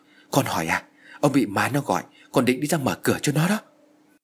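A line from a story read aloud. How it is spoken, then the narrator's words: Trembling old woman. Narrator (Vietnamese): Bà Hoài run rẩy trả lời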